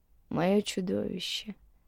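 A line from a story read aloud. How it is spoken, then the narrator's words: Quiet. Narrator (Russian): негромко сказал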